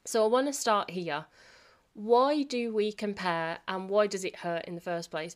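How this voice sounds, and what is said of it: Unwell, weird off-sounding voice. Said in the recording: “my voice is sounding very weird and different at the moment, so I'm not very well... why my voice is sounding a bit off today”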